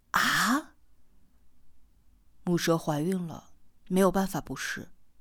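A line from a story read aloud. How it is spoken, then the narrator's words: Cold reply. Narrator (Chinese): 四娃冷冷的回答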